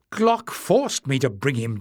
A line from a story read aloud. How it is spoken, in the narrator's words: Jasmine snapped